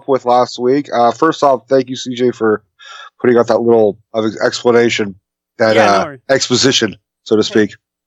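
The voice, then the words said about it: Congested voice. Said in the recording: “you guys might hear it in my voice. I'm still a little congested.”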